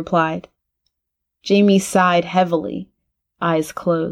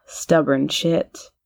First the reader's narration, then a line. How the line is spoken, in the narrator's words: muttered